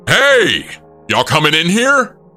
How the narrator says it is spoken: they saw us and shouted

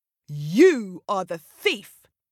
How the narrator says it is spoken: shouted Lion

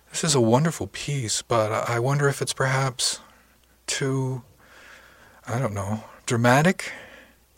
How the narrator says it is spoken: I sighed

